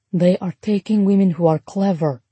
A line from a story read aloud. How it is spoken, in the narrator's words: Nadia whispered to Ruby